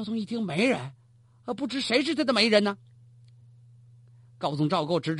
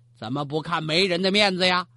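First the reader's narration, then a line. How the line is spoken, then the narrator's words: Cold. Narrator (Chinese): 高宗冷冷说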